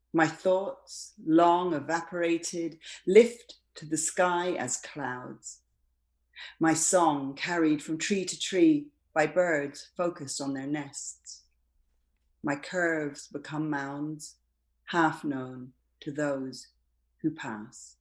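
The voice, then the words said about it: Appealing accent. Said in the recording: “your accent is also intoxicating”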